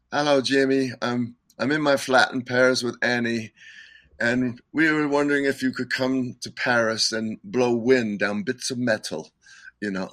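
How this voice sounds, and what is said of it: Imitates another person's accent. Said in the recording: “I can't do his accent real good”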